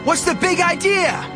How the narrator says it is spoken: screamed

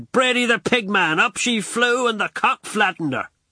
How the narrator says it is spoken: shouted

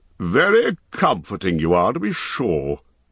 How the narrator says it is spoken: growled Thorin

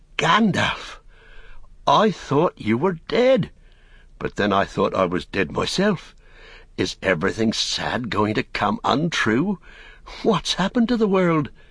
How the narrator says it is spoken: he gasped

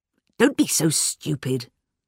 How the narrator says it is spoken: said Miss Blacklock crossly

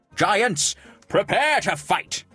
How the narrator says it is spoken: shouted

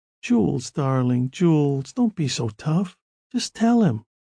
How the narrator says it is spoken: Lucy murmured

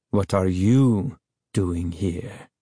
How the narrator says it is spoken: He asked softly, his voice as cold as his eyes

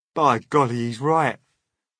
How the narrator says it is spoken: cried the centipede

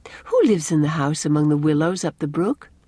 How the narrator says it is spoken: asked Anne

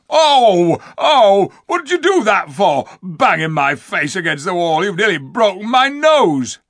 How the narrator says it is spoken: Diggle howling

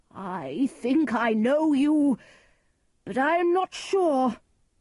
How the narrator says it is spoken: Lear cried

